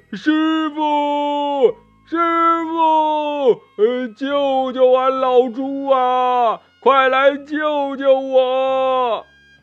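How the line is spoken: Desperate nonstop yelling. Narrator (Chinese): 这八戒呀被吊在树上，不停的叫喊呢

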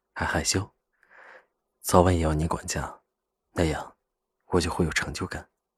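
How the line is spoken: Deep, low voice. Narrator (Chinese): 赵以静沉声道

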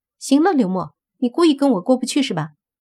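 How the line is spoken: Glaring. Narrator (Chinese): 瞪着那个叫刘默的人说

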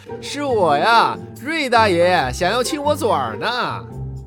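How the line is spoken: Laughing loud reply. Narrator (Chinese): 贾蓉嘿嘿的笑着，大声回答

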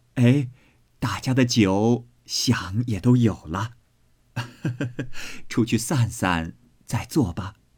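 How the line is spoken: Laughing. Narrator (Chinese): 薛姨妈笑道

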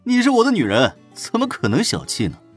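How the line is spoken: Hearty laughter. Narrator (Chinese): 胡展娇哈哈大笑

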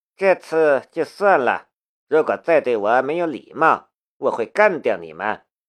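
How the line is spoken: Flat, indifferent. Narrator (Chinese): 梁思瑶淡淡的道

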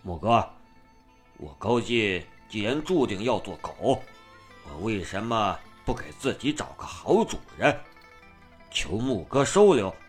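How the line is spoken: Low, kneeling plea. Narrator (Chinese): 高进不知什么时候又跪到木子面前，低声道

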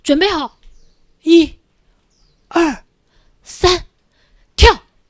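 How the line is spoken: Shouting from below. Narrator (Chinese): 帕斯卡在底下喊

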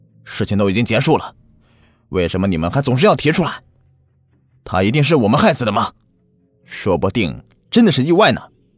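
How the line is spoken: Roaring. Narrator (Chinese): 老大大吼道

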